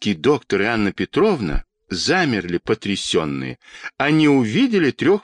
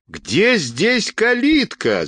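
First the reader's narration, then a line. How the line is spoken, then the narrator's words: Shouting. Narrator (Russian): закричала Анна Петровна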